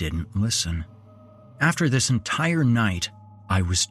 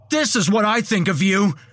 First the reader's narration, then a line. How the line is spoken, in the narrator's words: I yelled